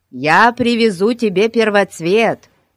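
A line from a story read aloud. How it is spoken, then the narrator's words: Shouting. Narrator (Russian): крикнул ей Фати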